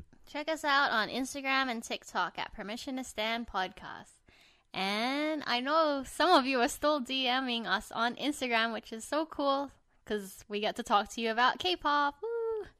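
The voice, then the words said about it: Sweet, high head-voice customer service tone. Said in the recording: “the way you say it, so like, ooh ... That's my customer service voice ... I use my head voice when I'm trying to be nice.”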